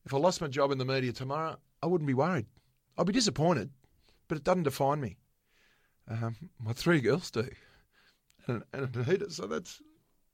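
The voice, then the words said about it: Emotional voice. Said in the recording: “getting a bit emotional”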